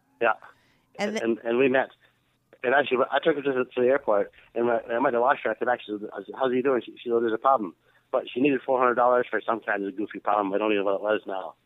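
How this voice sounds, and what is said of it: Accent somewhat hard to understand. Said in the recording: “sometimes it's hard to understand your accent a little bit”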